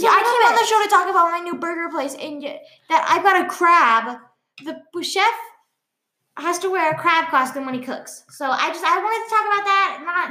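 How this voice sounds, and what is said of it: Young teenage girl character voice. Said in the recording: “I was like a weird elf gnome thing. So now I'm talking like a 13-year-old girl. ... you're a little bit more elf gnomey ... I was going for 13-year-old girl. 15 was the age limit of how my voice should sound.”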